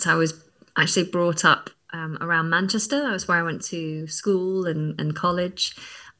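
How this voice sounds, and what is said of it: Neutral English accent close to RP. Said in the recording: “your accent is quite neutral, close to RP”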